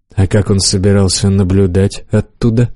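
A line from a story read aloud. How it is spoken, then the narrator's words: Plain. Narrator (Russian): спросил я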